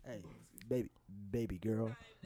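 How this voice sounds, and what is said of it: Whispered put-on English accent. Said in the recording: “whisper in your ear in that English accent.”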